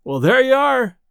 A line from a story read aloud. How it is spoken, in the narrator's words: said Delaney, hoarsely